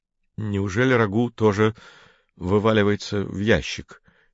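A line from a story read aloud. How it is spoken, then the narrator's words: Uncertain mutter. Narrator (Russian): неуверенно пробормотал Женя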